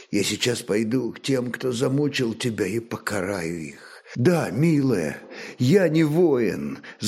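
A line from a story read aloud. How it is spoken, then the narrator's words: Quiet sad voice. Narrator (Russian): с грустью в голосе тихо молвил мечник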